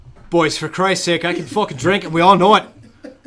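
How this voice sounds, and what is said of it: Put-on Irish accent. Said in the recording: “Do it in your Irish voice. Do it in your Irish voice.”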